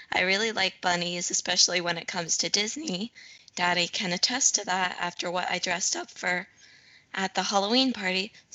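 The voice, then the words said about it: Slightly hoarse voice. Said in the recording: “my voice is getting a little bit hoarse.”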